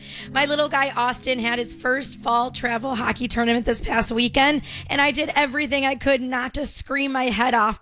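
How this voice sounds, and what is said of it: Hoarse, worn-out voice. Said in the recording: “kind of lost my voice... my voice is a little exhausted as well”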